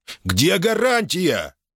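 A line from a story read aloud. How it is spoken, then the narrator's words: Shout, abruptly cut off. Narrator (Russian): выкрикнул он и сразу осекся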